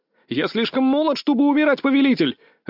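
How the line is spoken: Shouted out. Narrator (Russian): выкрикнул я

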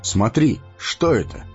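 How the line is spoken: Surprised cry. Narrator (Russian): удивленно вскрикнул Арагорн

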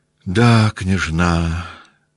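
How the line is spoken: Sad smiling voice. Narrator (Russian): сказал, наконец, Николай, грустно улыбаясь

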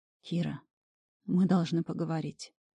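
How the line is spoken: Quiet. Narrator (Russian): тихо начал Ред

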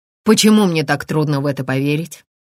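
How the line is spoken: Scoffing snort. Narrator (Russian): Томас хмыкнул

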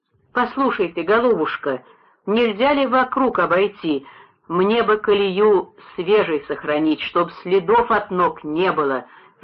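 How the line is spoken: Pleading. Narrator (Russian): взмолился Суриков

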